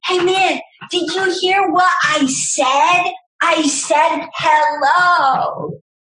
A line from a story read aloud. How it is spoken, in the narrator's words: scream